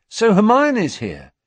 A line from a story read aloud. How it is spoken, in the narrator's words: he asked happily